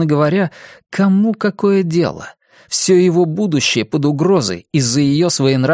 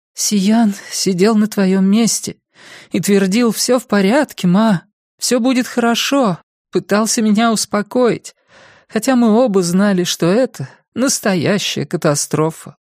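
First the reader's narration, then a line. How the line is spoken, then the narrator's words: Sighing. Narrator (Russian): вздохнула миссис Плинт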